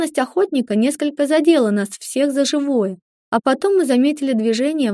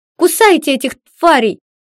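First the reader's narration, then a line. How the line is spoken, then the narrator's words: Screamed. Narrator (Russian): закричала я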